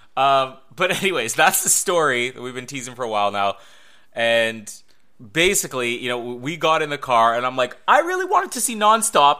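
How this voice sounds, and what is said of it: Congested voice from a cold. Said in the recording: “With a bad cold ... I have a cold.”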